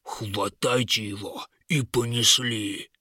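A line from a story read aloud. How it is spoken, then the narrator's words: Booming laughter. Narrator (Russian): Раскатисто захохотал вожак каменных скорпионов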